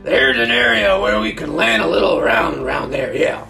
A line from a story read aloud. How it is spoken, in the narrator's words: he yelled over the dying roar